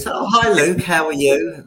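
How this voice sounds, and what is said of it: Poor Australian accent, sounds Cockney. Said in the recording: “that's the worst Aussie accent. ... That was a Cockney accent.”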